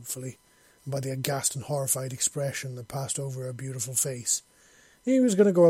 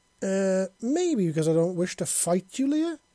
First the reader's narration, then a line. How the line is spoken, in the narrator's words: he said, his voice growing exasperated